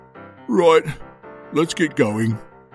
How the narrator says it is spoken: said Grandpa Tub sadly

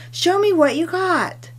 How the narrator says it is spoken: Tilikum excitedly exclaimed

